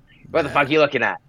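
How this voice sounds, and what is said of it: Hard New York accent. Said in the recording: “he's got like a hard New York accent”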